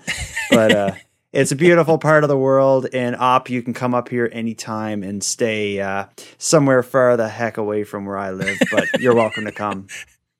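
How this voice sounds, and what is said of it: East Coast Canadian accent. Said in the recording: “I am firmly on the East Coast of Canada ... my accent, I probably sound like a fisher person”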